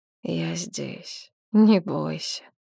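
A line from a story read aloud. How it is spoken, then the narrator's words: Quiet, gentle. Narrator (Russian): тихо сказал он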